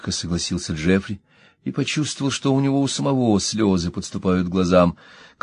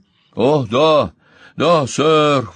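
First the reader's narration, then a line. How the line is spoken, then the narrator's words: Exclaiming. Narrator (Russian): воскликнул Колтер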